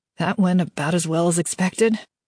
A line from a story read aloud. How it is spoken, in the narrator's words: Kaz said with a nervous laugh